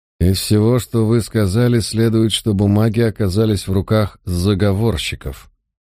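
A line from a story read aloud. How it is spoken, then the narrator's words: Through clenched teeth. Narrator (Russian): наконец процедил он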